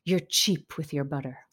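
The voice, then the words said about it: Imitated chic French accent. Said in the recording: “he just looks at me in his, you know, chic French accent”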